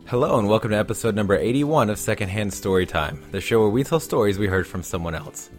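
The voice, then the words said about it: Slightly sick-sounding voice. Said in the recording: “pardon my voice, I've been a little bit under the weather this week”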